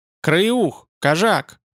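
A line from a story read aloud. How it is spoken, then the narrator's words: Roaring. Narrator (Russian): проревел вожак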